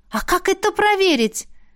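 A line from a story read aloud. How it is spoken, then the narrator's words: Exclaimed almost in chorus. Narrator (Russian): Едва ли не хором воскликнули мы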